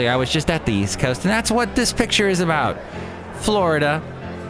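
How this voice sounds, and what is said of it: Usual voice. Nothing is said of it.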